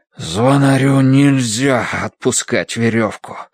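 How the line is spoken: Breathless, straining. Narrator (Russian): выдохнул он, дергая изо всех сил

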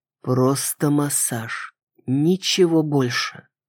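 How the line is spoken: Quiet. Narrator (Russian): тихо сказал

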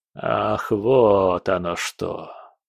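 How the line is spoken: Mumble. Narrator (Russian): пробормотал фон Браун

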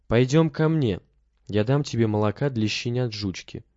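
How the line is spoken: Plain. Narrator (Russian): сказал он

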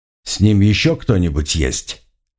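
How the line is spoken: Even, calm question. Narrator (Russian): спросил он ровным, спокойным голосом

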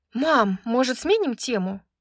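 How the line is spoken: Sighing. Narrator (Russian): вздохнула Брайс

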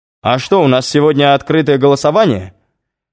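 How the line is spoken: Shouted out. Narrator (Russian): выкрикнул Загорецкий

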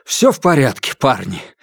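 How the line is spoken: Breathed out. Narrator (Russian): выдохнул Палыч

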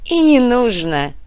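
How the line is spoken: Laughing. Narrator (Russian): рассмеялся Моня

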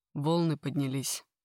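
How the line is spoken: Dry reply. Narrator (Russian): отвечает сухо

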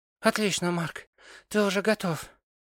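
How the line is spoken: Breathy exhale. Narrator (Russian): выдохнула она

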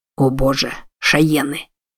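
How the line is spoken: Muttered. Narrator (Russian): пробормотал Джексон

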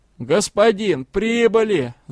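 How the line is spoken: Shouted. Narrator (Russian): заорал возница

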